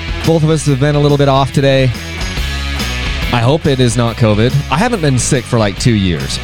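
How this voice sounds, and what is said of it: Congested, slightly sick voice. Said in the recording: “a little bit under the weather. I don't know if you can hear it in my voice,... got a little bit of a head cold today.”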